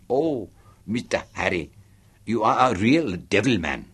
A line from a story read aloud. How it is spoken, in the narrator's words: she giggled